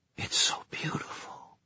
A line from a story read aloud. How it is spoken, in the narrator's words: she whispered